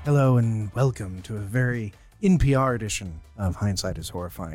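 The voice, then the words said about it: Smooth public-radio announcer voice. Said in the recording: “my NPR thing I was going to do ... Don't use your sexy voice on us.”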